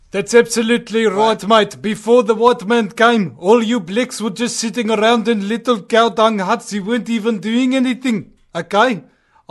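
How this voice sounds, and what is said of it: Put-on Afrikaner South African accent. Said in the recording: “this is South Africa, mate. This is an Afrikaner accent”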